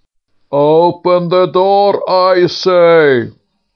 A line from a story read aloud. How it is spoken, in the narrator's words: roared out the king